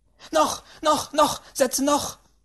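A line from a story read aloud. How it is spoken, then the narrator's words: Great-aunt screaming. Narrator (German): schrie die Großtante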